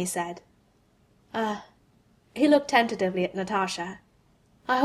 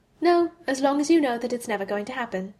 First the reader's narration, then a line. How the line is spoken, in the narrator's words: she answered cheerfully